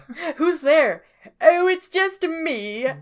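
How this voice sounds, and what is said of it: Silly put-on character voice. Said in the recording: “Doing a silly voice.”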